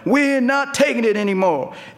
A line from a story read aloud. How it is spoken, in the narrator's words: white folks, like college students from Morgantown, West Virginia, showed up yelling